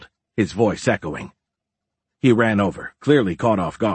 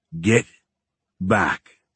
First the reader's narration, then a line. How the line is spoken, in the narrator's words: Pete growled